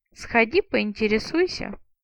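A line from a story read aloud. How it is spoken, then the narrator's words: Laughing. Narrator (Russian): Роллер рассмеялся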